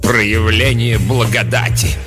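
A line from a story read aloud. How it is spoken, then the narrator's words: Contemptuous snort. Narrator (Russian): презрительно фыркнула мать-настоятельница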